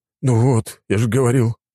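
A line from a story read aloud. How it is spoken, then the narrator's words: Sigh. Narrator (Russian): вздохнул Рафик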